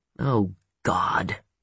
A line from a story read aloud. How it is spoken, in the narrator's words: she groaned